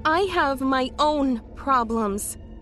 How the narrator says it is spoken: she said pleadingly

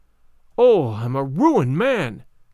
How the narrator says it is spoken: cried

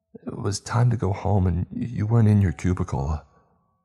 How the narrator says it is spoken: he stammered

